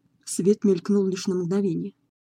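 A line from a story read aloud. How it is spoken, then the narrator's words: Plain. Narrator (Russian): сказал Локвуд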